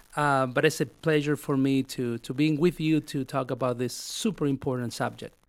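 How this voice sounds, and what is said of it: Non-native accented English. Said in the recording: “Hopefully you can get my accent.”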